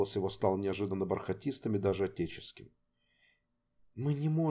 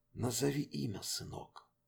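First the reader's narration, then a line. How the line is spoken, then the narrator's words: Barely audible request. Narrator (Russian): попросил он еле слышно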